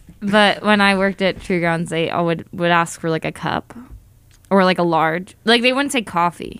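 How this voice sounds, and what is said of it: Usual voice. Nothing is said of it.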